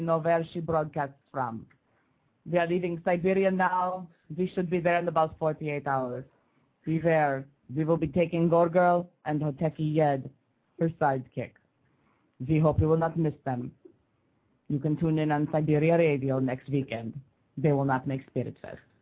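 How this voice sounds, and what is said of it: Convincing put-on Russian accent. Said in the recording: “the best Russian accent”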